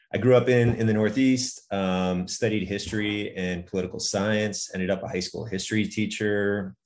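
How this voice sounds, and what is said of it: American accent. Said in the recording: “I'm American, as you can probably tell by this terrible accent.”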